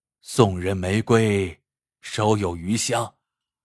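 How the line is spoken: Sighing. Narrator (Chinese): 刘大成叹息一声，说道

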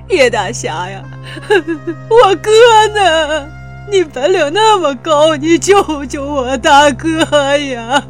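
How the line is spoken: Tearful voice. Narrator (Chinese): 二刚哭腔着说道

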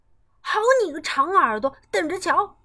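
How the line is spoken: Shouting. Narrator (Chinese): 跳跳叫道

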